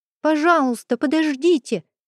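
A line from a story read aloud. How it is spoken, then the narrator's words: Shouting. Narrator (Russian): крикнул Платон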